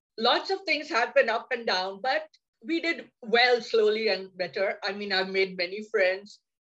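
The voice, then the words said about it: Speaks with a foreign accent. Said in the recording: “the accent was different. People would just bang the phone on my face because they couldn't understand my accent.”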